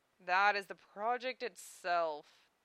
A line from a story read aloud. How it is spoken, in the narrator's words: the teacher moaned